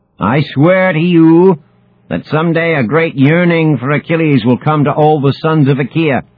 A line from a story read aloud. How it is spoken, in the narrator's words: shouts the man-killer, his voice so loud that it halts dice games 100 yards away in the tent city